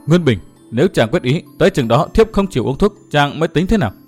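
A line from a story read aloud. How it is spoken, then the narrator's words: Pale, faint murmur. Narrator (Vietnamese): sắc mặt của Đinh Linh đã xám ngắt, nàng lẩm bẩm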